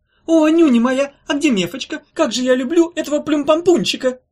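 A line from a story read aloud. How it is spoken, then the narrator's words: Shouting. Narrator (Russian): закричала она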